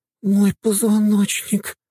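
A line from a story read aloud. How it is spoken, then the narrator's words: Groaning. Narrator (Russian): простонала Дриада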